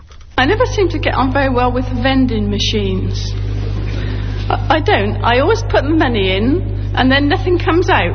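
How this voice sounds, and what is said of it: Distinctive British regional accent. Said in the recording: “a British poet ... She's got this amazing accent”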